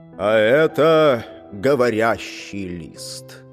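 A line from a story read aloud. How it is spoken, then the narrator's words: Solemn announcement. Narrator (Russian): торжественно объявил волк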